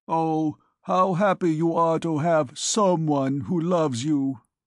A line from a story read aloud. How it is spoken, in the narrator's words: drew himself up stiffly and said